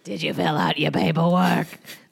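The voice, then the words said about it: Imitates a character's voice. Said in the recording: “That's a pretty good impression”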